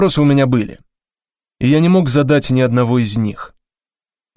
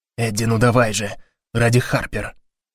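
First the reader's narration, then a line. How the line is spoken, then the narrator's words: Whisper. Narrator (Russian): шепнул Гарри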